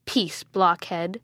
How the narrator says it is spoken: said angrily

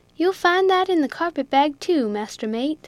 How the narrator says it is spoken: said Jack coolly

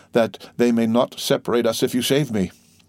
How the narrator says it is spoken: murmured the dying man

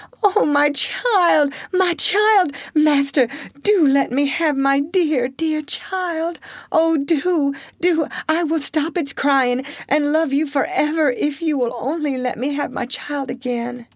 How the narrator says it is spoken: she cried

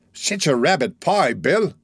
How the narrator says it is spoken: exclaimed that young gentleman

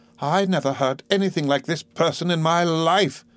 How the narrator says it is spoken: exclaimed Miss Murdstone

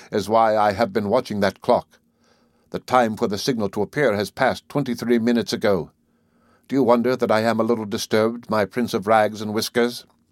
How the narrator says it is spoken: concluded the young man bitterly

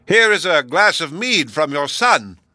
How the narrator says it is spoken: he shouted the same thing again, and yet again

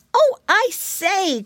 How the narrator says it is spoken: cried Curly

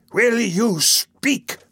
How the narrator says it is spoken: thundered the Jew

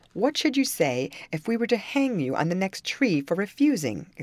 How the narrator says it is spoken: exclaimed the captain

